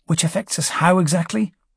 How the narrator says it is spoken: Brocklaw murmured, with the ground pounder's typical disdain for anything the Navy might be doing

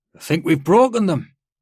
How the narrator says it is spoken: called out

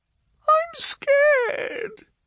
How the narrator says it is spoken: sobbed Yotsi

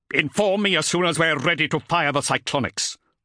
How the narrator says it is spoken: ordered Zadkiel, his tone betraying his impatience at the unforeseen delay

